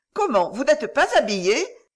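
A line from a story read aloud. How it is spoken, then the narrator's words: Exclaiming young woman. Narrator (French): s'écria la jeune fille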